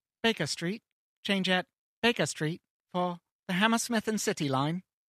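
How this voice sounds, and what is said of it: Automated Tube announcement voice. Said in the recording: “my best impression ever is the automated voice from the London Tube circa 2001”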